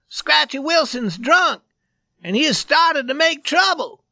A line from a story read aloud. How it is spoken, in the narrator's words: He cried